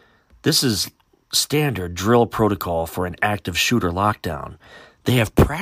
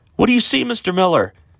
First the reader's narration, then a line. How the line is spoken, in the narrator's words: Sophie shouted from the back of the room, with fear and desperation in her voice